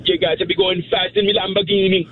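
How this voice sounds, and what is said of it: Put-on Jamaican accent. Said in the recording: “no, a Jamaican accent. ... Only Jamaican. ... Jamaican. ... That was good. Perfect.”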